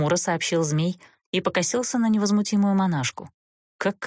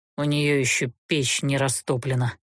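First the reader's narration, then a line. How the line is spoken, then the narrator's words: Regretful grumble. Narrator (Russian): буркнул, горячо сожалея, что ночевал не в трактире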